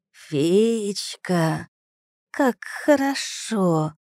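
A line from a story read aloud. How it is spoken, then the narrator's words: Creaky voice close by. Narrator (Russian): проскрипел голос над моим ухом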